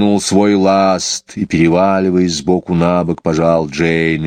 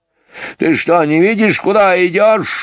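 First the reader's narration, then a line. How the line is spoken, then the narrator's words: Sudden shout. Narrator (Russian): вдруг закричал он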